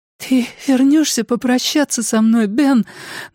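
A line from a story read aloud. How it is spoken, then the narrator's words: Girl's trembling voice. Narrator (Russian): дрожащим голосом спросила девочка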